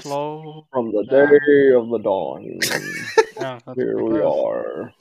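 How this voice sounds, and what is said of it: Slow Morgan Freeman impression. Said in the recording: “do a good Morgan Freeman impression? ... He has that really slow voice.”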